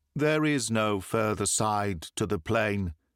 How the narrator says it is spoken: said he

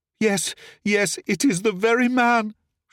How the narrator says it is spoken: she cried

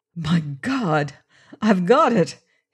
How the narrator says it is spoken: he cried

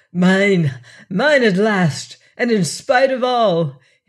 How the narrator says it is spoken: cried exultantly, theatrically, truly heroic

